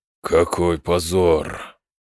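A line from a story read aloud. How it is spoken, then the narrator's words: Angry, through gritted teeth. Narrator (Russian): зло процедил четвертый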